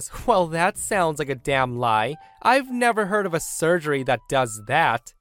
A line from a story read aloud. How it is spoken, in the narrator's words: Karen scoffs and says